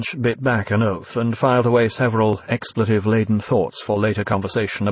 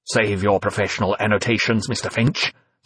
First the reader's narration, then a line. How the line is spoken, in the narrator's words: said Sutler coldly, uninterested in praise for fallible human beings